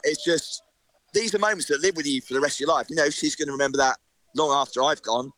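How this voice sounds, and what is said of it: Emotional, choked-up voice. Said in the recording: “sorry, I'm getting a bit emotional there”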